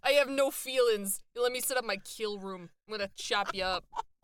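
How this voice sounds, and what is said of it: Put-on heavy Boston accent. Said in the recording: “really heavy Boston accent ... I am not great with a Boston accent ... This is Boston”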